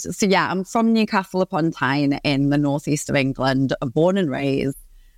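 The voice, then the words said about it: Geordie accent. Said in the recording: “there's a Geordie living in LA ... I heard your accent and I was like, yes, she's a Geordie”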